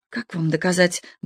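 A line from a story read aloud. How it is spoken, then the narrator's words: Muttering. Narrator (Russian): бормотал он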